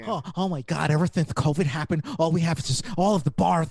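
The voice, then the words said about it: Imitates another person's voice. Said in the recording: “that impersonation”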